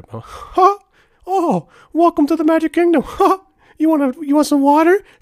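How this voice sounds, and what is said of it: High-pitched cartoon mouse voice. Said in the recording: “doing the Mickey Mouse voice”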